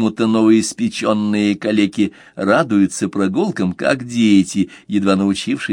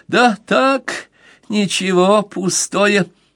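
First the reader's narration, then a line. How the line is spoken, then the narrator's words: Giggling. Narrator (Russian): продолжая хихикать, проговорил Акаи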